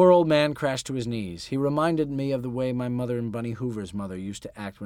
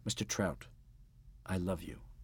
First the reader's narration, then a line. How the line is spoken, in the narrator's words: I said gently